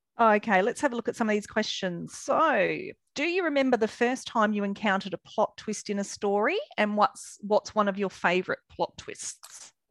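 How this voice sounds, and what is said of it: Australian drawl. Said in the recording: “my Aussie drawl”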